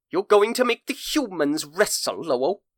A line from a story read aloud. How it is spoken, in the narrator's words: Columbo scoffs